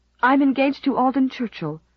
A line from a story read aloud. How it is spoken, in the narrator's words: said Stella desperately